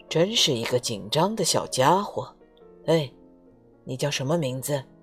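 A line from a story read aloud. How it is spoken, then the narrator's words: Gentle. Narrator (Chinese): 流浪汉温柔的说道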